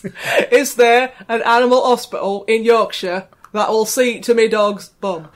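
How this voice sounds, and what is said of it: Put-on Yorkshire accent. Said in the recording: “Did you like my Yorkshire accent? ... It was very good, my dear. ... Really? Because I don't think it was very good.”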